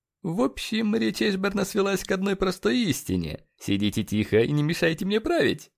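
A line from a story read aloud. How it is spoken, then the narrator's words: Smirking question. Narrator (Russian): хмыкнув, спросил Леджер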